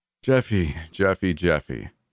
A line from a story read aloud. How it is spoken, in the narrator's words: he sighed